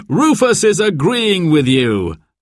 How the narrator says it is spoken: laughed Dad

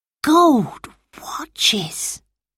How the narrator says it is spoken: whispered Peter

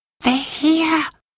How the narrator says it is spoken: whispered Anthea

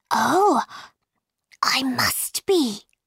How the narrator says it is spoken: whispered Alice

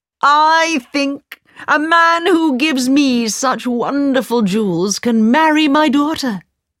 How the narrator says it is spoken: the Sultan cried

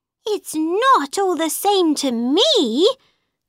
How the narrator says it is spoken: cried Alice

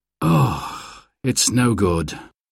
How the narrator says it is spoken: sighed Dad

